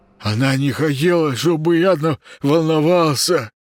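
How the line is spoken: Timid babbling. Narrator (Russian): пролепетал Паша

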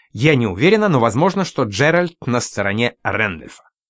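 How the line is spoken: Pause, then thoughtful. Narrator (Russian): сделала паузу и задумчиво добавила

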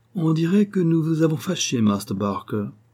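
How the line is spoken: Haughtily courteous tone. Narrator (French): dis-je d'un ton de hautaine courtoisie

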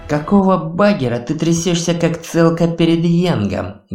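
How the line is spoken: Angry hiss. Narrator (Russian): гневно прошипел Неп

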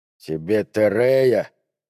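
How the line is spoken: Hesitant, forced out. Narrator (Russian): помедлив с ответом, выдавил, наконец, Дэнди Энди

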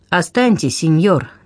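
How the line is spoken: Firm command. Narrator (Russian): твердым голосом велела

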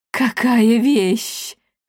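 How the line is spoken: Enchanted breathless exhale. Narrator (Russian): зачарованно выдохнула она

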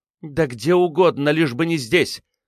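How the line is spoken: Through gritted teeth. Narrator (Russian): бросила она сквозь зубы

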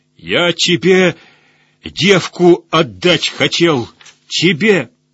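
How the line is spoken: Dying man's shout. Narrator (Russian): Жизнамир выдал всю истину, закричав в смертной истоме

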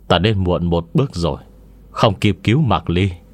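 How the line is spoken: Sighing. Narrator (Vietnamese): thở dài một hơi, nói với Lưu Hỉ

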